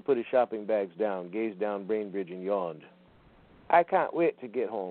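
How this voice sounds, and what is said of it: Usual voice. Nothing is said of it.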